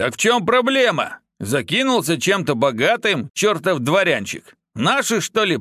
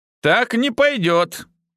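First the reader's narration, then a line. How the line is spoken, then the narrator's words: Snort. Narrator (Russian): хмыкнул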